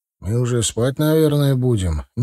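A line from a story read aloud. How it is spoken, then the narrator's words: Uncertain. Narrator (Russian): неуверенно заметил Ахмад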